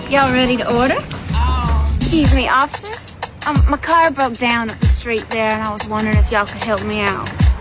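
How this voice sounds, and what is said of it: Exaggerated country Southern accent, badly done. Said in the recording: “People trying to do a Southern accent and it's god-awful ... They all do this really country, I'm thinking Georgia accent ... they're doing Southern accents that are horrible”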